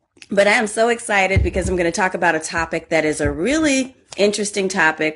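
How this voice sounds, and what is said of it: Strained, hoarse voice from yelling. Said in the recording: “I just left the soccer field and I have soccer mom voice. I've been yelling”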